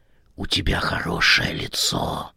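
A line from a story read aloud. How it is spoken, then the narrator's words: Eerie whisper. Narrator (Russian): прошептала жуткая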